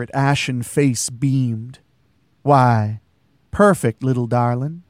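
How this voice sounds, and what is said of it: Southern drawl. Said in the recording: “Her voice had a southern drawl to it.”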